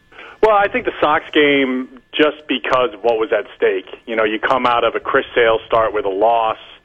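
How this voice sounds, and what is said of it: Slightly hoarse, strained voice. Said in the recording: “my voice is still a little shot”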